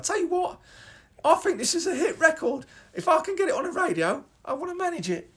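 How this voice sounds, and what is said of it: Imitated London female receptionist accent. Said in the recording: “London female receptionist accent.”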